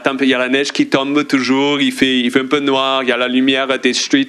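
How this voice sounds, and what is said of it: French with a tinged foreign accent. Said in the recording (French): “on l'entend aussi à ton accent ... ce bel accent teinté”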